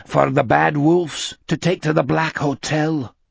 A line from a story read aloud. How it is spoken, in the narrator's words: Anders said grimly